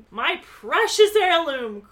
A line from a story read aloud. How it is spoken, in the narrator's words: Carla cried out